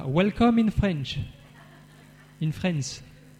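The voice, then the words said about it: French-accented English. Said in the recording (French): “je dois perfectionner un petit peu mon accent”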